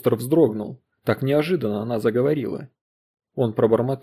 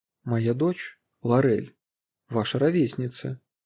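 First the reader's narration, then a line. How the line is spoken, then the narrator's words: Quiet voice. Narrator (Russian): она сказала негромко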